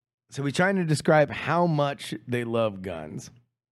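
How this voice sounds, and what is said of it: Usual voice. Nothing is said of it.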